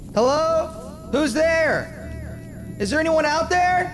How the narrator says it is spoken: Roger yells out

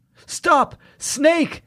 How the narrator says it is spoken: Jamie cried out

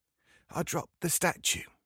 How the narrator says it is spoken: he says in a whisper

